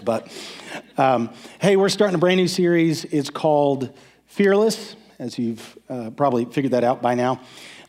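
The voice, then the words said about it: Voice affected, not sounding normal. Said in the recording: “you're going to have to excuse my voice.”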